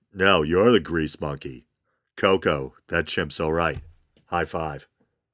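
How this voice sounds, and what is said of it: Imitates another person's voice. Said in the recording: “I sound like Dave Putty ... my David Putty impersonation”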